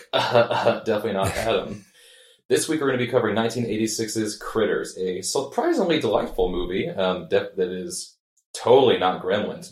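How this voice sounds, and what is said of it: Slightly altered, sick-sounding voice. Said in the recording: “My voice is just slightly different because I'm sick.”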